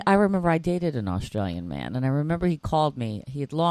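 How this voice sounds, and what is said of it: Usual voice. Nothing is said of it.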